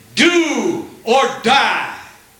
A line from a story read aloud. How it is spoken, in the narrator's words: Sinai shouted